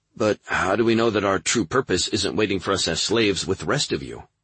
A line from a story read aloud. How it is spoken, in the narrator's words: Cuddy asked